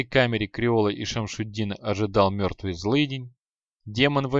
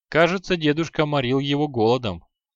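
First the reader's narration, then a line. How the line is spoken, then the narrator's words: Wry snort. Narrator (Russian): хмыкнул Креол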